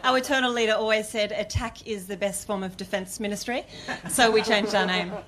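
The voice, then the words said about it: Australian accent. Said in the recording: “speaks with such a perfect Australian accent”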